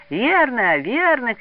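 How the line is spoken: Children shouting together. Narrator (Russian): кричали второклассники

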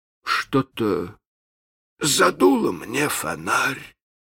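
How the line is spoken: Uncertain. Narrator (Russian): произнес он неуверенно

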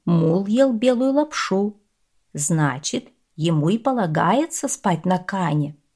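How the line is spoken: Calm reply. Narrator (Russian): спокойно ответил постоялец

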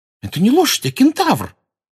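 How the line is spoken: Indignant exclamation. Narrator (Russian): возмущенно воскликнула Лаванда

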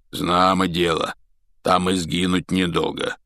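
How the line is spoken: Hoarse rasp. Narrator (Russian): прохрипел Хагрид

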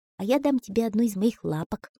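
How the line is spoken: Plain. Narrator (Russian): сказал муравей

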